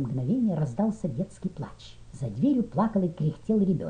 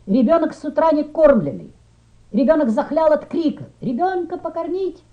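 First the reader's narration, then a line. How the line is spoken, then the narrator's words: Shouted through cupped hands. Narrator (Russian): Приставив руки рупором, крикнули сзади рядов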